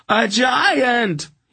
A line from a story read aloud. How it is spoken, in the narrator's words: he screamed in a sudden panic